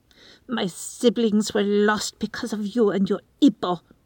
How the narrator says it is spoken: she snarls at Erebus, making the term of endearment sound like a curse

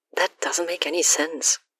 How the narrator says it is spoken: Alex mutters

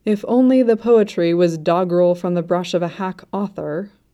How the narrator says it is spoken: Shen Qingqiu muttered

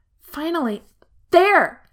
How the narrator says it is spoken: Lan Xingyi yells

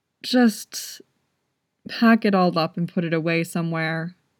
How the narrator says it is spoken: he said wearily

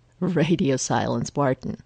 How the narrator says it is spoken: Phil says, but he's not even trying to hide the chuckle in his voice

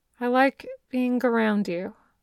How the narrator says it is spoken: Dazai said slowly

